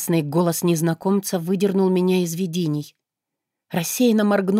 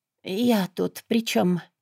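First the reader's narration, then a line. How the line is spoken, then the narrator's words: Hoarse. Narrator (Russian): спросила сипло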